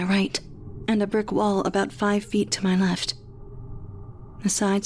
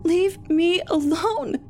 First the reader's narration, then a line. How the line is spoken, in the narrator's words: I screamed